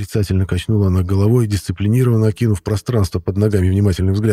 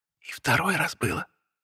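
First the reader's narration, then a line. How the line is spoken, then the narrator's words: Whispered, blushing. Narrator (Russian): шепнула, зардевшись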